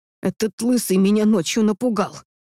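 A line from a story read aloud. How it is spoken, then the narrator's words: Grumbling mother. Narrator (Russian): проворчала мама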